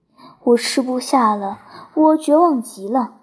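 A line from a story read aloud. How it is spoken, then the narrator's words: Despairing sigh. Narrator (Chinese): 安妮叹了口气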